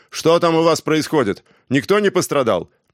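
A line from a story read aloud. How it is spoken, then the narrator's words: Yelling. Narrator (Russian): Жан заорал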